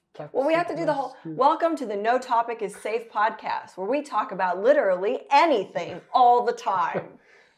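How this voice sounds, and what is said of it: Radio announcer voice. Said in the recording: “Such a radio voice. ... I didn't work on it. ... it just came out natural like that.”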